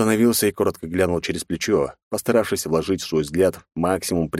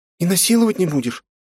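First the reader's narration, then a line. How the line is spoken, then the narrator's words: Uncertain bleating. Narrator (Russian): Все так же неуверенно проблеяла незнакомка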